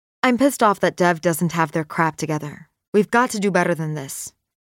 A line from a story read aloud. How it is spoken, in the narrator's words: Maxine finally blurts out